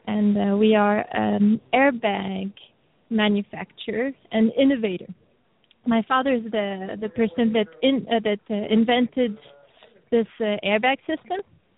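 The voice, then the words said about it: French accent. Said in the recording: “the lovely, lovely accent you're going to hear is French ... a little French ... A lovely accent ... It's beautiful”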